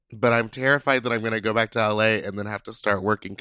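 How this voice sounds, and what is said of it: Congested, messed-up sick voice. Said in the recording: “I think I may be sick ... It's just up in my face and in my nose. It's like a sinus infection, possibly ... my voice is all messed up”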